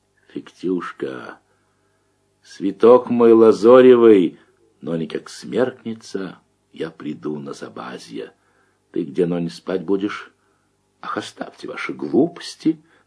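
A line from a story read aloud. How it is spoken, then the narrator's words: Stern girl, running. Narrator (Russian): на бегу неприступно строго отвечает девка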